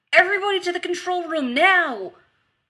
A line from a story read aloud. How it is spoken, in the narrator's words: Rodney shouted into the comm